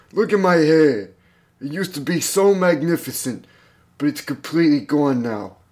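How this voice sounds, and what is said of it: Old man voice, New York accent. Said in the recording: “I'm gonna do an old man voice ... and he's also from New York.”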